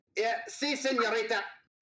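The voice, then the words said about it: Put-on Scottish accent. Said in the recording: “He says in a Scottish accent”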